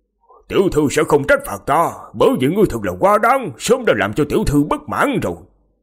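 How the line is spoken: Loud demanding shout. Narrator (Vietnamese): Diệp Phàm lớn tiếng quát hỏi

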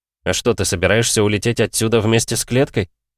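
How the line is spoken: Mocking grunt. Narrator (Russian): хмыкнул Антон

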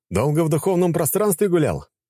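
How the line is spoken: Chuckling laugh. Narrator (Russian): хохотнул наследник

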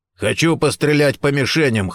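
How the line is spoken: Hoarse shout, big man. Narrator (Russian): хрипло выкрикнул в ответ Гордон, крупный, плотный, бритоголовый мужчина

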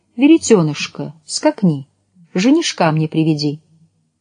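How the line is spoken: Soft singing. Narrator (Russian): стала тихо напевать

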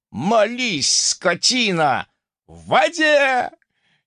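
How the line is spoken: Sudden yell. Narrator (Russian): Неожиданно заорал кто-то из рядовых бойцов

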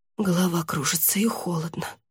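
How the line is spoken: Whisper. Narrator (Russian): прошептала та

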